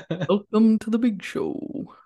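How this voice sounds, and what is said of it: Deep announcer-style radio voice. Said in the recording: “My radio voice. ... It's really good.”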